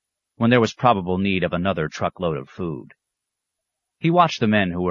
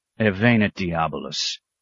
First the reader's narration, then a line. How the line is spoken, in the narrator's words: the abbot growled